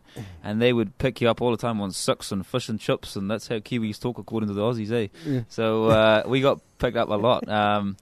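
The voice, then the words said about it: Mixed Scottish and New Zealand accent. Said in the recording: “I've got my muddled half Scottish, half Kiwi accent”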